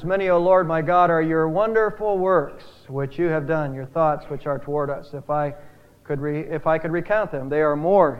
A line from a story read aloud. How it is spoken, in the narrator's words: he says